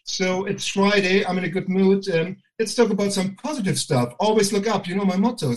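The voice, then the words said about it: German accent. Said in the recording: “I can't deny my bloody German accent”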